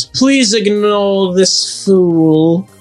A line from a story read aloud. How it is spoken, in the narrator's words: Draco drawled smugly